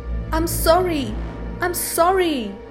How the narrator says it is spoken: screamed at the top of his lungs

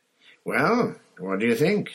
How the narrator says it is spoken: said Bagman happily

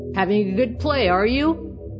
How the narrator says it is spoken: he asked in his thunderous voice

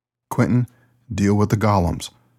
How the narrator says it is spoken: Mateo said in a calm and controlled voice

